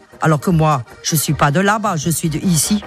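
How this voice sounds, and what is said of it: Alsatian French accent. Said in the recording (French): “elle en a marre qu'on devine qu'elle est alsacienne... Elle essaye, tant bien que mal, de gommer son accent.”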